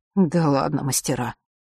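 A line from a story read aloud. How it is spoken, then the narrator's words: Grumbling. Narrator (Russian): буркнул папа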